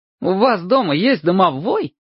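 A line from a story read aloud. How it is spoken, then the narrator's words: Cheerful surprise. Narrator (Russian): весело удивился Чебурек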